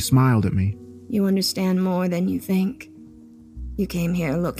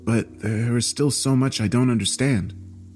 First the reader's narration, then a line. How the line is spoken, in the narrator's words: I said nervously